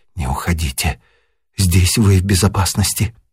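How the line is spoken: Barely audible whisper. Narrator (Russian): чуть слышно шепнула

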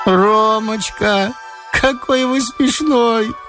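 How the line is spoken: Thin childlike singsong. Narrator (Russian): пропела она тоненьким детским голоском

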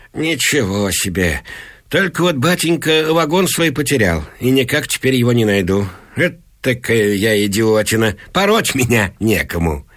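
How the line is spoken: Giggling. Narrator (Russian): Полкообразный Иван Алексеевич покачивается и хихикает

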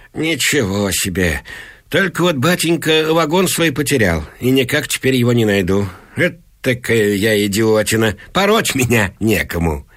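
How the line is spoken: Giggling. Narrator (Russian): Иван Алексеевич хихикает

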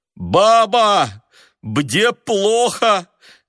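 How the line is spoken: Shouting through stuffy nose. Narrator (Russian): крикнул сквозь насморк

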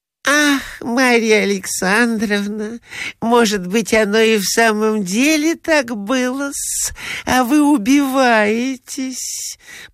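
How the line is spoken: Honeyed sweet voice. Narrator (Russian): проговорила она самым медоточивым голосом

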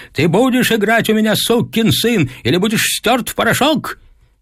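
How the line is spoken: Father shouting. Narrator (Russian): Отец кричал

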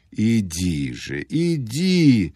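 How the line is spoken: Strained babbling. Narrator (Russian): залепетал он с усилием

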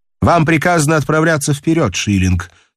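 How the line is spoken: Plain. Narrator (Russian): сказал он

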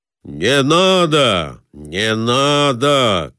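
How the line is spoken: Shouting after someone. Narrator (Russian): кричал ему вслед Николай Иванович

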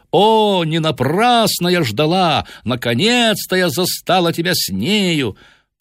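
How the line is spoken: Shouting in French. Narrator (Russian): Она кричала по-французски

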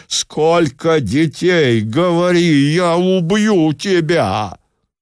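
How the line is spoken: Furious shouting. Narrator (Russian): в нарастающем бешенстве я кричал

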